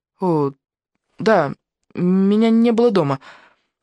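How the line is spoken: Timid babbling. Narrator (Russian): пролепетала

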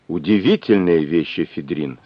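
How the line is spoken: Plain. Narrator (Russian): сказал он

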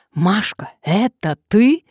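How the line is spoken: Yelling. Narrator (Russian): заорала Надежда

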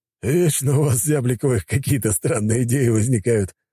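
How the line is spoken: Loud laughter. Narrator (Russian): расхохотался

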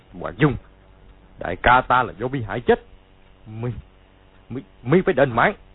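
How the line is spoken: Shouting. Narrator (Vietnamese): quát lên

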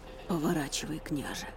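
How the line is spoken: Grumbling. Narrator (Russian): буркнул Эрик

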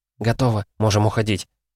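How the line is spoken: Whisper. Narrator (Russian): шепнула

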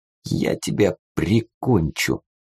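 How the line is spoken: Quiet young man. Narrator (Russian): тихо произнес юноша

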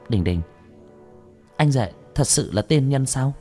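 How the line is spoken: Quiet whisper. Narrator (Vietnamese): trong lòng của Nhậm Châu Châu dễ chịu hơn một chút, ghé tai Nhậm Đình Đình nhỏ giọng

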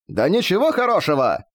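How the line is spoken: Silent inner yell. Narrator (Russian): завопили про себя

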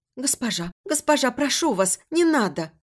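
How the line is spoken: Girl pleading. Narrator (Russian): Взмолилась девушка

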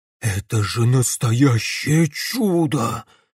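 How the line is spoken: Breathless awe. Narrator (Russian): выдохнул он

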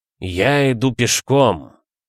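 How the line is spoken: Forced out. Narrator (Russian): выдавил он

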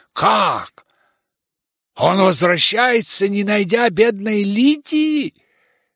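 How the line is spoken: Exclamation. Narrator (Russian): воскликнула она

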